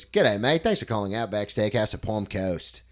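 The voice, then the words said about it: Put-on Australian accent. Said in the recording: “But you did an Australian accent for the phone? ... that's not bad ... You had to round the lip corners a little bit more.”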